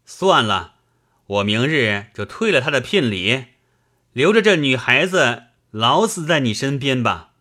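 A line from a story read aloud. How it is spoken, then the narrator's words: Sulky, exasperated. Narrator (Chinese): 闹得忠诚没了法子，便赌着气道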